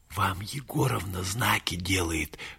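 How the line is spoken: Whispered. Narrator (Russian): шепнул Юра Александру Александровичу

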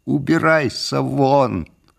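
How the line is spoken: Ear-ringing shout. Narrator (Russian): закричал я так громко, что у меня зазвенело в ушах

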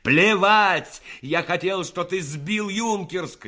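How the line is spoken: Shouted. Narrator (Russian): крикнул Рассохин

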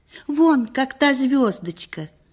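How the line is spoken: Joyful exclamation. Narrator (Russian): воскликнул он радостно

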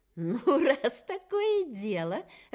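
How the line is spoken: Bird laughing. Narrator (Russian): рассмеялась птица

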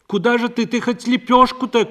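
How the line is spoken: Called after someone. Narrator (Russian): крикнула ей вслед Парашка

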